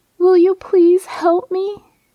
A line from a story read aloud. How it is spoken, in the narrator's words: pleading as tears streamed